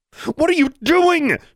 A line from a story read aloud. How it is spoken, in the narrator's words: yelled